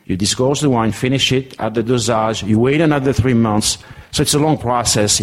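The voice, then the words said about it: French accent. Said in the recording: “If you understand French accent, yes. ... if you don't, it's going to be difficult.”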